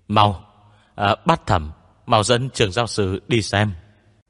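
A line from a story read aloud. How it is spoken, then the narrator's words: Urgent exclamation. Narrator (Vietnamese): Viu Tiểu Dũng kêu lên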